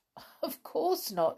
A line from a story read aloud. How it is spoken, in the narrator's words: said, laughing